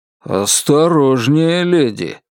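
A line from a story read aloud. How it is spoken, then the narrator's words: Grumbled. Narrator (Russian): проворчал Алан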